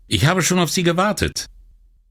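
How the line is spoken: Called out. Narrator (German): rief sie

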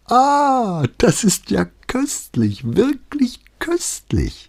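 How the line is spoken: Flute-like laughing voice. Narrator (German): meinte die Contessa mit einem Lachen, das wie eine Flöte klang

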